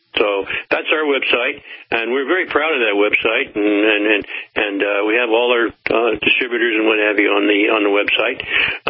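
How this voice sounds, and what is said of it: Southern American accent. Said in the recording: “I can't really get rid of that southern accent”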